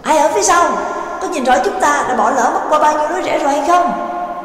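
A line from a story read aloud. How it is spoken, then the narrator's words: Loud call. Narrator (Vietnamese): Trắc Mộc Cường Ba lại lớn tiếng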